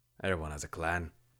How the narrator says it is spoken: he grunted

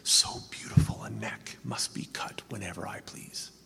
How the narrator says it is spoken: Caligula was a paranoid schizophrenic whispering

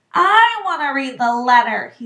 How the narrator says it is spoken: he said loudly

